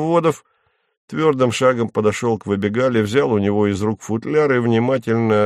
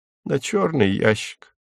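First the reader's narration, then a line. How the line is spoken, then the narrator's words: Glum. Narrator (Russian): уныло сказал комендант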